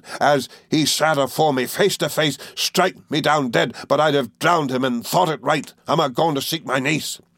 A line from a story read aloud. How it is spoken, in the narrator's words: said wildly